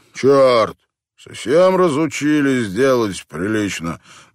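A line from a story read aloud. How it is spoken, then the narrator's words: Gloomy grumble. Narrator (Russian): мрачно проворчал он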